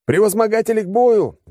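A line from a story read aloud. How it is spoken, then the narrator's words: Yelling. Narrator (Russian): заорал я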